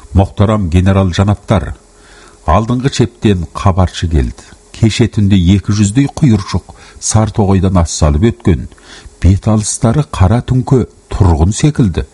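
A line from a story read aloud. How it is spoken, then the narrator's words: Plain. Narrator (Kazakh): деді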